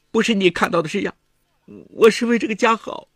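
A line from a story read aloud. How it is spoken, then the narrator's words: Tearful, pleading. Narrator (Chinese): 女人哭着极力向丈夫解释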